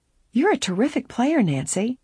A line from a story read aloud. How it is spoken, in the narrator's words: Laura exclaimed